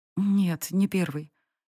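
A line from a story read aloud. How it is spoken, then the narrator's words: Barely audible, frightened. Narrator (Russian): едва слышно ответила Сари, побледнев сильнее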